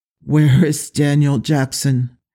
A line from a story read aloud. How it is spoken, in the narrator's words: Teal'c groaned when he could speak